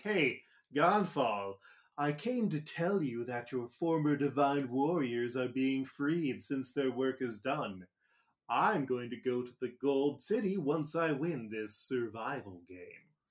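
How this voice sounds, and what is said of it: Smarmy cartoon character voice. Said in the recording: “my impression of the American Eno voice ... It's kind of smarmy.”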